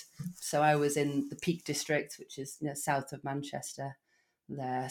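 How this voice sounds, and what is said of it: English Derbyshire accent. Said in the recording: “not with a Welsh accent, just an English one, just a Derbyshire accent.”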